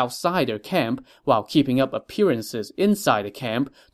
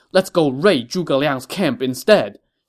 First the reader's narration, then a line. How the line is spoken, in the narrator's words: Xing Daorong shouted